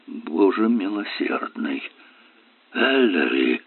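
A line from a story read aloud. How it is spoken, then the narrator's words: Choked mutter. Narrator (Russian): Керк пробормотал сдавленным голосом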